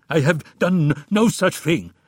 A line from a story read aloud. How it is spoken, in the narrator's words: stammered an unconvincing Omar